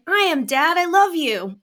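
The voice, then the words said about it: Young cartoon lion cub voice. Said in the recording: “Like Simba from The Lion King. You know, Kid Simba... That was an amazing impression... very good impression”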